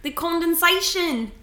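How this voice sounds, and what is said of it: Put-on New Zealand accent. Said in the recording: “Rate my New Zealand accent.”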